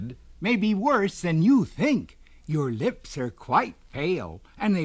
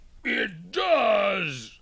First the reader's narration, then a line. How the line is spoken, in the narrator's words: moaned the bear